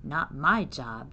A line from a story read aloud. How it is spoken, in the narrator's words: she grumbled